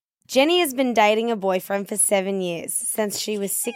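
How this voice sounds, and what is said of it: Put-on Australian accent. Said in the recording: “Read it in your Australian accent. ... You have an amazing Aussie accent. ... it's not that good”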